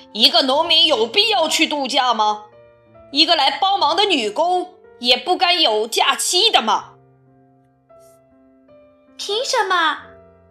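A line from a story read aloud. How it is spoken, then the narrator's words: Loud complaining. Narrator (Chinese): 农夫贝克大声嚷嚷着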